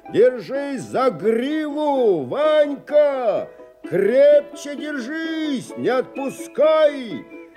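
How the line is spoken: Shout from behind. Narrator (Russian): Не мог догнать взбесившуюся кобылу, кричал сзади

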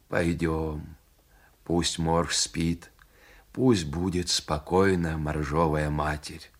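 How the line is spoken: Quiet, pained hunter. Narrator (Russian): Почувствовав боль в пояснице, охотник тихо сказал волку

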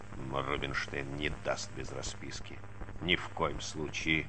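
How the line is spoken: Grumbling. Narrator (Russian): забурчал он

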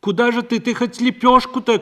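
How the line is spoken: Shouting after someone. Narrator (Russian): крикнула ей вслед Парашка

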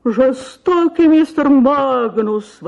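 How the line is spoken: Tearful exclamation. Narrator (Russian): воскликнула леди средних лет, заливаясь слезами

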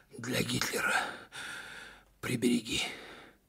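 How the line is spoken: Strained exhale. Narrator (Russian): через силу выдохнул комбат

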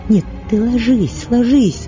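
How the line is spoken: Unsteady altered voice. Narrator (Russian): проговорила Катерина Львовна опять изменившимся нетвердым голосом

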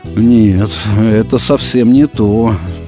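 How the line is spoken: Sad. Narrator (Russian): грустно сказал Пятайкин

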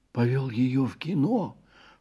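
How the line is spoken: Whispered complaint. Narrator (Russian): шепотом пожаловался

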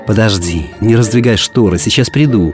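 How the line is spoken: Whisper. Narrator (Russian): прошептал

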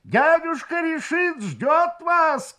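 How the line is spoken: Shouted. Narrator (Russian): крикнул он

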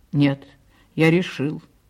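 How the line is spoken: Plain. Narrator (Russian): сказал Павел

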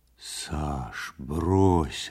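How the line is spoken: Confused, smiling tone. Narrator (Russian): растерянно улыбаясь, сказал Ванька

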